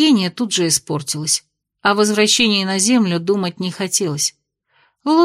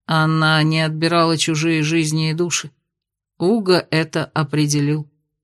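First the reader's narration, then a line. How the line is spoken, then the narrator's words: Plain. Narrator (Russian): ответил Кайл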